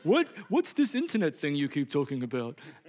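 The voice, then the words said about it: Imitates another person's voice. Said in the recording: “I sounded like my mom.”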